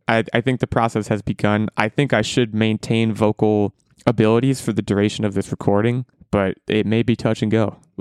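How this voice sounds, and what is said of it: Strained, fading hoarse voice. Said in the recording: “I'm losing my voice. ... I guess I shouted wedding a bunch”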